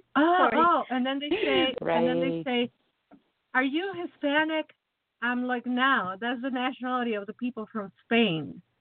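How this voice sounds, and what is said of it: Slight Latino Mexican accent. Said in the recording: “you have a little accent, you sound Latino, you sound Mexican.”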